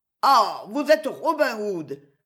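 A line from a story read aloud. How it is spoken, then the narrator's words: Pitiful, woeful exclamation. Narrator (French): s'écria le baron avec un accent lamentable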